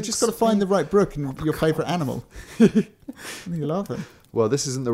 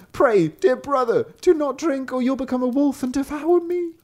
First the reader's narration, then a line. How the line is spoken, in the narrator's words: The sister cried out